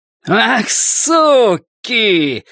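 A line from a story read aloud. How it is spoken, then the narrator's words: Man shouting. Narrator (Russian): закричал мужчина с винтовкой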